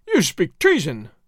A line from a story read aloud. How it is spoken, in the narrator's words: the magistrado cried